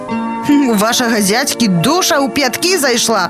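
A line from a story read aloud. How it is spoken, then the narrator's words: Angry snarling cat. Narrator (Belarusian): злосна шчэрыцца кот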